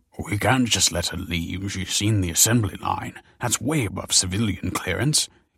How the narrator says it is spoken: hissed the man

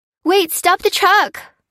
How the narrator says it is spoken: cried Fliss

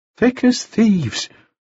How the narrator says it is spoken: Clinch said mournfully

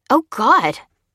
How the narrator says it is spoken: exclaimed Lucy, watching the man fall

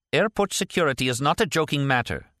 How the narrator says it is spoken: snapped the one searching the luggage

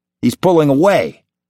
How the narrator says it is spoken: Severin snapped

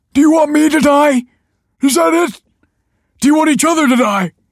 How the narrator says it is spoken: cried

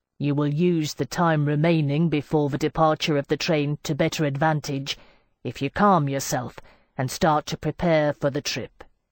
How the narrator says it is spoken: told me coldly

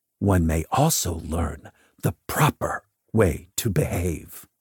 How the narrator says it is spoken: whispered

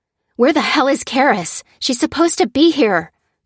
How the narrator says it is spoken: cried Lucy

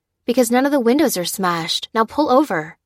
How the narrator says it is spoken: said Lucy

